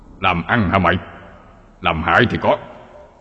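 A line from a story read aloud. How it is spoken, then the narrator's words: Harsh, stern old man. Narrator (Vietnamese): Ông già gằn giọng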